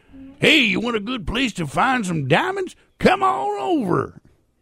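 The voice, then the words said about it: Old prospector character accent. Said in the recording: “be the old prospector... I got the accent and everything for it.”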